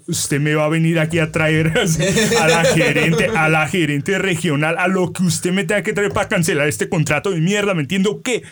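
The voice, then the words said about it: Put-on Colombian Spanish accent. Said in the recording (Spanish): “¿tu acento colombiano?”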